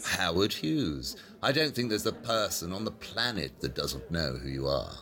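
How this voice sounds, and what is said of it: British accent. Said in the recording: “Is that a British accent, I detect?”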